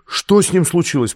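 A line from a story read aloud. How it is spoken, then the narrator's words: Piercing, terrible scream. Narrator (Russian): пронзительно и страшно крикнула она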